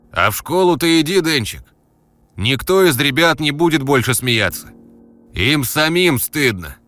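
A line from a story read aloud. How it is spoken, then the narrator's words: Distant shout. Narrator (Russian): крикнул он уже из темноты лестничного проема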